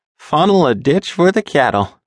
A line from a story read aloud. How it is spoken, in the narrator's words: said with a laugh